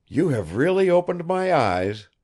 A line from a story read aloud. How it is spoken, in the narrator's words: he exclaimed